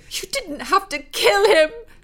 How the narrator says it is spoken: she screeched

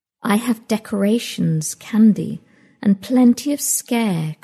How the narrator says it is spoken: Gracie said, sighing

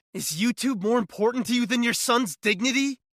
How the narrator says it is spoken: I screamed at them, my face still stinging from the milk

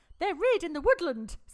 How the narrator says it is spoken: said Elizabeth brightly

